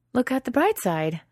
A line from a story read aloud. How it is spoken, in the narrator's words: Sarah pants as they wade through the swamp